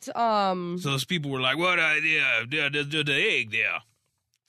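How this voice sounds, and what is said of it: Put-on Cajun accent. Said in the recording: “That's my Cajun accent. ... It's good. It's good.”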